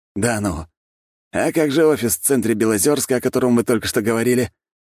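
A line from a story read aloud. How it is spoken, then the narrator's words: Sarcastic question. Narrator (Russian): язвительно спросил Григорий Васильевич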